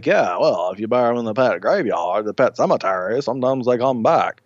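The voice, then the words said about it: Deliberately bad put-on accent. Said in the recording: “that's my horrible... horrible accent”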